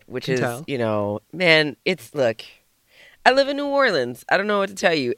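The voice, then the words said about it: Hoarse, partly lost voice. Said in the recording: “I've lost my voice a little bit”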